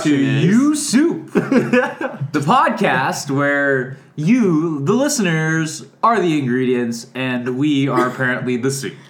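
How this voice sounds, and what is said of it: Exaggerated podcast host voice. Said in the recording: “That was my podcast voice.”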